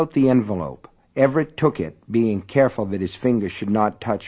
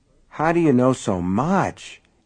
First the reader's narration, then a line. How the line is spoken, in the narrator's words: Everett asked in a dazed voice